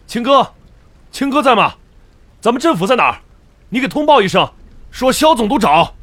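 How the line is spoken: Guard shouting. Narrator (Chinese): 锦衣卫对遮雨棚底下喊道

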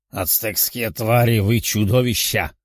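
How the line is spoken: Growling warrior. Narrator (Russian): рычал чернокожий воин в облике человека-ягуара

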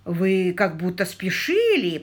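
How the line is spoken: Frowning grumble. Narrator (Russian): проворчал водитель, все еще нахмурившись

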